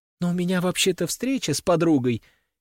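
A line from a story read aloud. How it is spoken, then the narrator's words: Squeaked. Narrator (Russian): пискнула графиня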